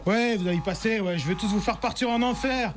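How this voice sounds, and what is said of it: Exaggerated put-on accent, poorly done. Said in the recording (French): “Mais c'est quoi cet accent pourri”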